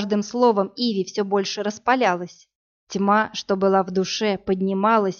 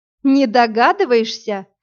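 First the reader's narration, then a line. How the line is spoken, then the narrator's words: Hysterical laughter. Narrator (Russian): Как-то истерически рассмеялась Иви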